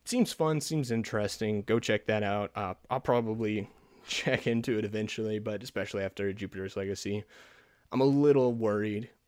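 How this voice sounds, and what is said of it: Scratchy, fading hoarse voice. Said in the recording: “My voice is going out, so that the epic voice uh, isn't really holding all that well ... my voice is getting scratchy”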